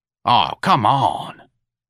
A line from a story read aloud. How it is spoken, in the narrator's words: Santa croaked